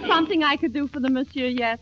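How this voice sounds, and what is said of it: Peculiar put-on accent. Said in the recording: “you have the most peculiar accent”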